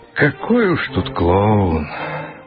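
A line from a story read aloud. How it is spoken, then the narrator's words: Sighing. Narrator (Russian): вздохнул директор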